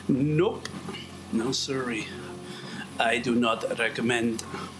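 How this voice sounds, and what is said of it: Generic put-on foreign accent. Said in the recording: “Whatever accent that is, that's my generic foreign accent”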